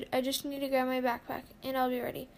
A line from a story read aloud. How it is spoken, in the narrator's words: She quickly answered